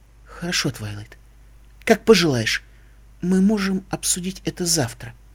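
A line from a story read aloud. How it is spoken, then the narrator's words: Very gentle. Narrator (Russian): произнесла принцесса Селестия как можно мягче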